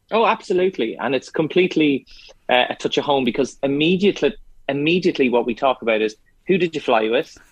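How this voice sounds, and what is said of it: Irish accent. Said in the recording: “love that accent as well. It's as if you never left us here and you still haven't.”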